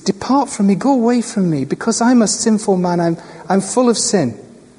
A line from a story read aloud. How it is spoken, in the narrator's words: he cried to Jesus